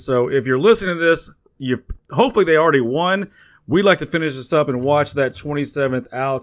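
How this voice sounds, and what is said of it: Texan accent. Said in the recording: “our accents that we're a couple Texas born and raised boys”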